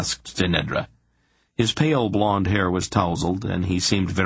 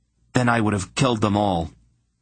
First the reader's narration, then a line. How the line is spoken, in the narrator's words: Ulban declared fiercely